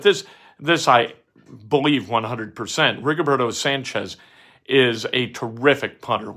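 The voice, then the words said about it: Lowered, deeper voice. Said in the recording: “my voice is lowered a little bit”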